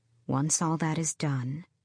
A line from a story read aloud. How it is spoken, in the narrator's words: she said, smiling faintly